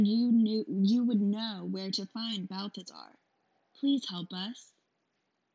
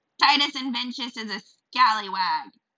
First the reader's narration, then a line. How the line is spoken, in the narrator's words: she shouted